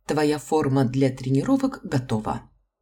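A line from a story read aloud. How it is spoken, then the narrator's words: Plain, after a pause. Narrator (Russian): наконец ответила преподавательница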